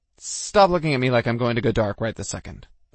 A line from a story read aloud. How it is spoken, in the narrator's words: I snapped at Ryan